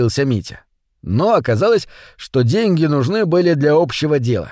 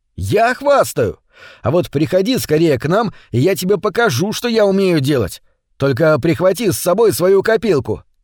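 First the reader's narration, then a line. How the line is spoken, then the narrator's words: Shouted. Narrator (Russian): кричал Витя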